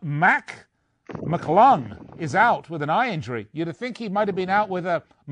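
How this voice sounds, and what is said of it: Usual voice. Nothing is said of it.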